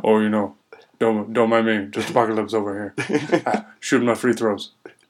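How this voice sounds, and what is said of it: Shaquille O'Neal impression. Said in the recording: “Shaq. ... Really good impression, you guys.”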